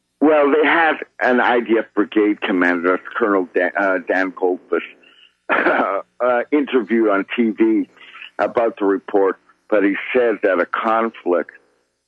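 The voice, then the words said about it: Voice sounds a little funny. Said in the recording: “my voice sounds a little funny, my teeth are killing me ... I'm doing it with really hurting teeth”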